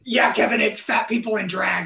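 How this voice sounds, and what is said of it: Imitates another person's voice. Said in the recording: “I don't do a good Mateo impersonation”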